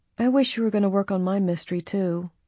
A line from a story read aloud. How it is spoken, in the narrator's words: Alice said wistfully